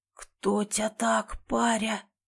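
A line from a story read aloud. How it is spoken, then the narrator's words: Wheezed. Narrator (Russian): просипел Ефим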